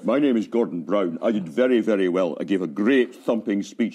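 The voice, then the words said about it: Impression of Gordon Brown. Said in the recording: “That's a great impression.”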